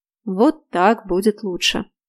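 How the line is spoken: Deep bass voice. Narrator (Russian): пробасил

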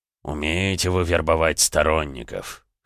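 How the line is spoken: Wry snort, lord. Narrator (Russian): хмыкнул владыка

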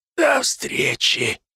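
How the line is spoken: Whisper. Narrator (Russian): шепнула она

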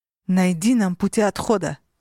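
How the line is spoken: Growled. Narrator (Russian): рыкнула я

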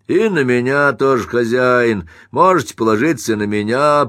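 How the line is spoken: Hoarse wheeze. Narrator (Russian): просипел Тирнан

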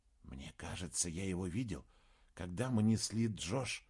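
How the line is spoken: Whisper. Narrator (Russian): снова прошептал Саймон

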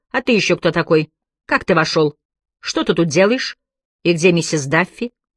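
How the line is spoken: Stern question. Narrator (Russian): она строго спросила

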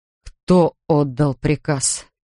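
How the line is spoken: Hoarse angry question. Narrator (Russian): охрипшим от гнева голосом спросил он

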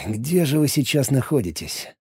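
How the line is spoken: Silent inner sigh. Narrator (Russian): мысленно вздохнул он

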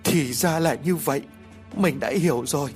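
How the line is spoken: Stammering realization. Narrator (Vietnamese): Lý liền lắp bắp

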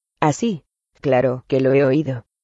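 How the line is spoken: Choked faltering voice. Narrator (Spanish): dijo Hagrid con la voz entrecortada

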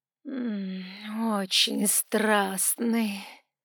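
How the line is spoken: Contented drawl. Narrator (Russian): протянула она, зажмуриваясь, как довольная кошка

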